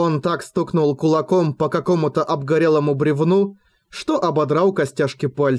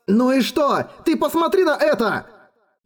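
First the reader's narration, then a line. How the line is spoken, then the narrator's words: Even louder yelling. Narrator (Russian): Ещё громче завопил Эрагон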